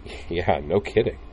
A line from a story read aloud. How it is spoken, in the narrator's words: Utina chuckled